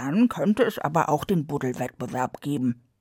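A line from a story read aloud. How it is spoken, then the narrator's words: Mole grumbling. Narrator (German): brummte der Maulwurf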